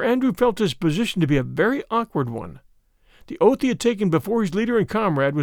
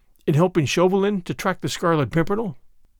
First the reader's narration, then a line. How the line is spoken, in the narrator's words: he said